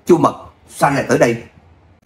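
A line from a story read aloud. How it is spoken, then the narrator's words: Calling out. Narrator (Vietnamese): Trung Hồng kêu lên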